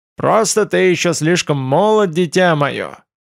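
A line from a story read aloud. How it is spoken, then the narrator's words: Quavering old drawl, suppressed laughter. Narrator (Russian): Дребезжащим старческим тоном протянул артефактор, стараясь не расхохотаться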